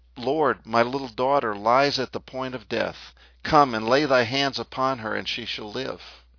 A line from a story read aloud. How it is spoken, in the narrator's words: cried